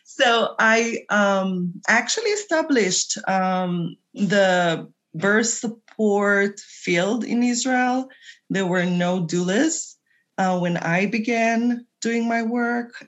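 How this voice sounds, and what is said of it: Israeli-accented English. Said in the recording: “My funny accent is Israeli. ... It's a beautiful accent.”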